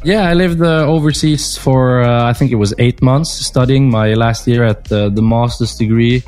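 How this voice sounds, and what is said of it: Non-native English accent. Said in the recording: “with your accent, I thought you were doing the Moses degree”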